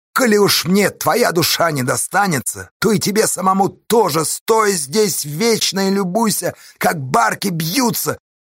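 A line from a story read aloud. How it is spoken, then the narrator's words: Shouting. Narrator (Russian): крикнул он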